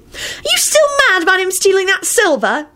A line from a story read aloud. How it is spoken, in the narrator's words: Ginny yelled out in a disgusted voice